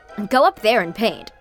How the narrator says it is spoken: chuckled

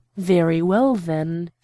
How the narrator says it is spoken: she said

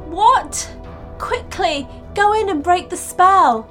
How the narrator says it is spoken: pleaded Mia

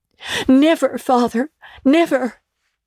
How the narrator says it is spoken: cried they all

